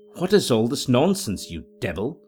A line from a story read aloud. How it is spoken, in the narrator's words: I demanded, fiercely enough, though weak and trembling in every limb